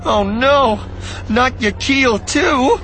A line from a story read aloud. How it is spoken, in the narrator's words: she cried brokenly, almost whimpering